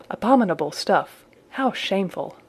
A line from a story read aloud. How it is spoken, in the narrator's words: the stout one, whispered